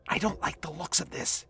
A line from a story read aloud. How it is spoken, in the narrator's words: he whispered